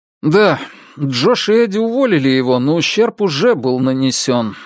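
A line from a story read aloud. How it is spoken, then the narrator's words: Sighing. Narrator (Russian): вздохнул Тим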